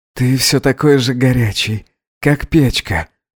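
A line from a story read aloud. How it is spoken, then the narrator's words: Whispered. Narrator (Russian): прошептал Гедеон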